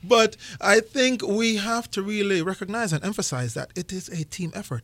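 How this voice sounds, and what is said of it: Speaks with a noticeable accent. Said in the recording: “With this accent, I have to be.”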